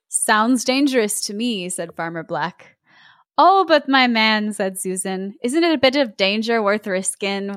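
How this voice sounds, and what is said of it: Attempted put-on accent. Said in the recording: “I'm sort of trying to do an accent. I don't think it's working.”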